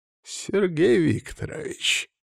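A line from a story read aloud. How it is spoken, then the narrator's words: Angry restrained growl. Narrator (Russian): злобно прорычал Соломон, явно сдерживаясь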